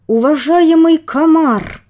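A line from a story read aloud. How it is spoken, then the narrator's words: Through gritted teeth. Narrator (Russian): Процедил сквозь зубы генерал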